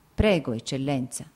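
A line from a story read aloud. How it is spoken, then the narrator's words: Plain. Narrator (Italian): disse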